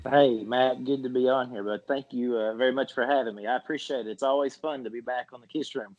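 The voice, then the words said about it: Country accent with a twang. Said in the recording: “having a country accent ... we live with a bit of a twang”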